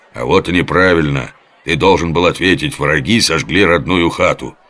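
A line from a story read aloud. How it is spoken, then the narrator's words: Stern reproach. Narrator (Russian): строго упрекнул лев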